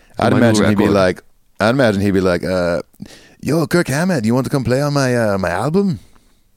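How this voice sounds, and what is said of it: Put-on Hispanic accent. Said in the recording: “That's my Hispanic accent. That's the best I can do”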